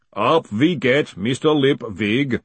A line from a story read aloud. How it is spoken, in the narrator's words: said the booming voice